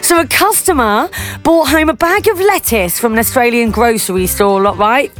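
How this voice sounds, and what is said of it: Put-on Australian accent. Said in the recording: “we're going to Australia now. You know that I'm gonna do the accent.”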